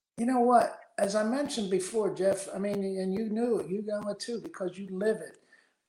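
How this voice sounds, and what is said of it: Pittsburgh accent. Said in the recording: “We both still have our Pittsburgh accents ... we have a distinct accent.”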